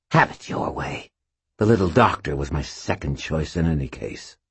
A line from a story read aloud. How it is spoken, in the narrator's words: she snarled